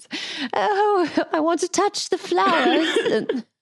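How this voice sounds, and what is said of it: Poor attempt at British accent. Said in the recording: “I can't do a British accent”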